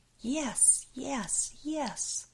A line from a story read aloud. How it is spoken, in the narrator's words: Jane screaming